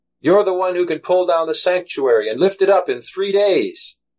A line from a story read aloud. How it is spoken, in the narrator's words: One yells